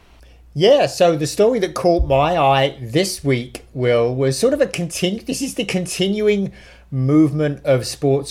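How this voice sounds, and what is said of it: British accent. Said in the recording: “one with a British accent ... this one with an accent”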